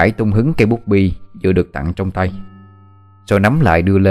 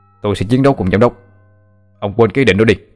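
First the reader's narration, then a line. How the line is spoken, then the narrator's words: Indignant shout. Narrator (Vietnamese): trợ lý Hoàng hét lên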